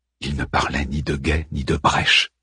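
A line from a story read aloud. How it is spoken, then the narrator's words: Murmured. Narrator (French): murmura Harman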